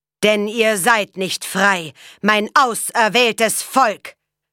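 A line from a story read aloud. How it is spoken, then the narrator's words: Thundering preacher. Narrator (German): donnerte der Prediger in die Menge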